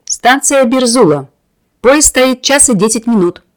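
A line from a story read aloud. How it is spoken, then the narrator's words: Conductor shouting. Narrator (Russian): прокричал кондуктор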